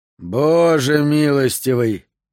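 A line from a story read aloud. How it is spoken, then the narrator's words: Breathless exhale. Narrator (Russian): выдохнул Кеплер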